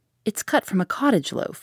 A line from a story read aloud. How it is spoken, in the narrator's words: I explained soothingly